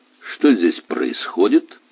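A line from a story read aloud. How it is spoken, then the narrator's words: Menacing question. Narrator (Russian): грозным тоном задал он вопрос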